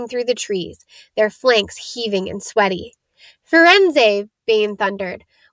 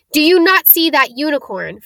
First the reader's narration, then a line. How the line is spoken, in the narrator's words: Firenze bellowed at Bane